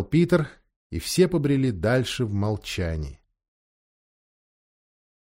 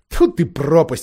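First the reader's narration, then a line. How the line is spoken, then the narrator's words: Exclamation. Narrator (Russian): воскликнул Эдмунд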